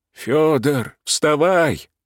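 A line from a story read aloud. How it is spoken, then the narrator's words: Agitated mutter, old man. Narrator (Russian): взволнованно пробормотал старик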